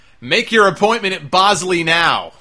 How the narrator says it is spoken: Enzo screamed

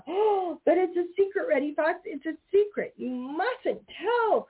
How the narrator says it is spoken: cried Peter Rabbit

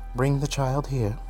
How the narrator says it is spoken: she said

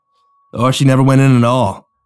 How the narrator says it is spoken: Rick sighed

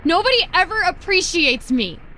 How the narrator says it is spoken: I said, raising my voice

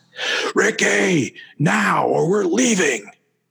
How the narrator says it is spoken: The man bellowed

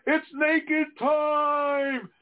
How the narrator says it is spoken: Jax yelling

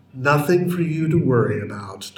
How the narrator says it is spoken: Doctor Who said in his most soothing voice

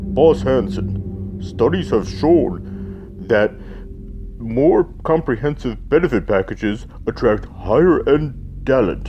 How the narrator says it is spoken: A large man in a deep voice said

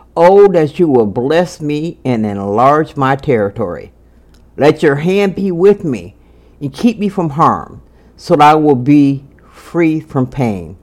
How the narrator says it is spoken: Jabez cried out to God of Israel

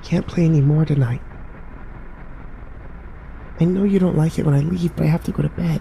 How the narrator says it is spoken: Sam whispered

